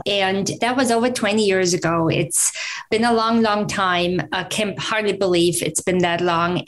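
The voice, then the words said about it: German accent. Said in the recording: “I'm originally from Germany. You might pick up the accent still.”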